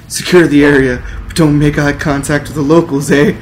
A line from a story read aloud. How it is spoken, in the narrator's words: yelled the Prime Mountie